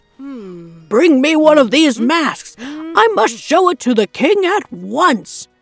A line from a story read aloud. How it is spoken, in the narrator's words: the guard called out again